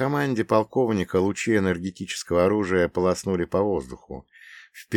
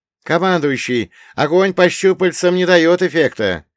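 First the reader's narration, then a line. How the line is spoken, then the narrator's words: Paratrooper shouting. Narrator (Russian): крикнул один из десантников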